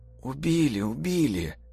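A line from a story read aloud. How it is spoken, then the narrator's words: Barely audible whisper. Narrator (Russian): зашептала на грани слышимости Тоська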